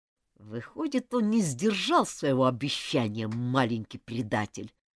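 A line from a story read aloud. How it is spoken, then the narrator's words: Through gritted teeth. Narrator (Russian): процедил сквозь зубы Джулиан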